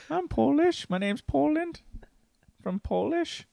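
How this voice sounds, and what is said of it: Attempted Polish accent, sounds Danish. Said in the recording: “Do your best Polish accent ... I think it's more Danish.”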